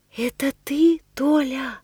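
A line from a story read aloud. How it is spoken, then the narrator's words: Quiet calling. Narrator (Russian): Тихо зову я, разом решив, что так плакать может только бедный Пятница о своем Робинзоне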